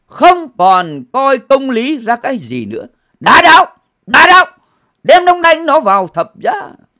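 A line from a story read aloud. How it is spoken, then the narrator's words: Crowd screaming. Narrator (Vietnamese): bọn dân chúng vô tâm ấy thét lên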